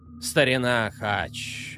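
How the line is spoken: Sighing. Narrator (Russian): вздохнул Чарн

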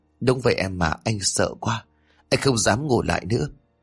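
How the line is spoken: Trembling, frightened. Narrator (Vietnamese): Nhật miệng run rẩy, gã nói

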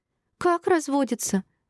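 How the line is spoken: Squeaky high voice. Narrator (Russian): запищала Шинар

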